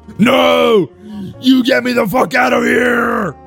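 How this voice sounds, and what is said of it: Outrageous pro wrestler voice, yelled. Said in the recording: “your Harry Potter is just Macho Man Randy Savage, backed off a bit ... I'm going more of a Hulk Hogan here ... in an outrageous voice”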